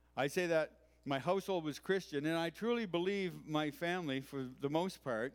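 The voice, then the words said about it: East Coast Canadian accent. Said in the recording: “that explains the weird accent you hear sometimes when I talk. Not when I was born, but where.”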